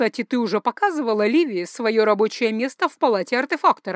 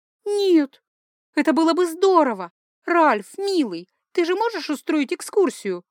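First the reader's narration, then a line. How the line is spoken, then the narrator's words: Pleading. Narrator (Russian): взмолилась я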